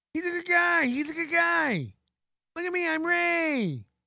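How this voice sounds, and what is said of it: Imitates another person's voice. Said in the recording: “I can do an impression of Ray. ... Great impression. Great impression.”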